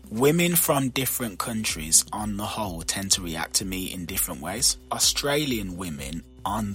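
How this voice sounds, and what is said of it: Usual voice. Nothing is said of it.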